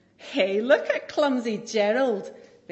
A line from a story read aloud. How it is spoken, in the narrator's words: The animals all laughed